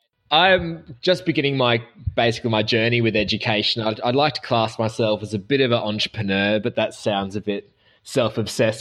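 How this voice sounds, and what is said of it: Australian accent. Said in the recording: “I'm the Australian side of the trifecta of accents”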